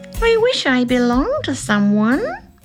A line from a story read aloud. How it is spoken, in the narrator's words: purred the cat